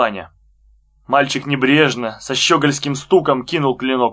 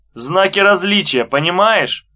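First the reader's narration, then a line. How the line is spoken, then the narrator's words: Mocking boy's voice. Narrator (Russian): сказал мальчик насмешливо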